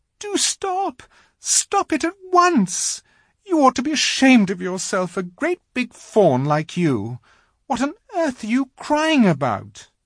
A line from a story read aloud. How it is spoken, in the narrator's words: bawled Lucy in his ear